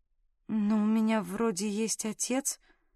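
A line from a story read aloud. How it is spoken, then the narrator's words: Muttered. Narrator (Russian): пробормотала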